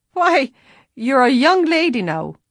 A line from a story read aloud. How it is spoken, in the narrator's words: he laughed